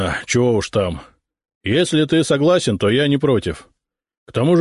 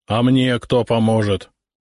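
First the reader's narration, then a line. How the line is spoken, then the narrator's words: Grumbling male voice. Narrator (Russian): проворчал сотник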